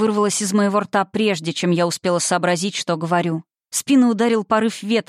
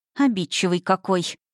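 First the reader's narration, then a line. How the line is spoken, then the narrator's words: Terrified mutter under breath. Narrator (Russian): Дрожа от ужаса, пробормотала себе под нос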